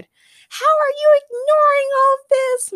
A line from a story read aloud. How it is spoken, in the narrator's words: Morgana shouted